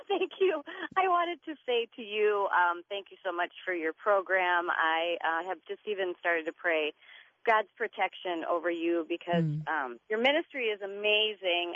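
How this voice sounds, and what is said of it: Congested voice from a cold. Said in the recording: “I have a little bit of a cold, so hopefully you can hear me okay.”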